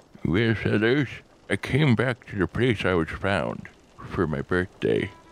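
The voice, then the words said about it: Old man voice. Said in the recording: “I don't think I did an old man voice before, but now I'm going to.”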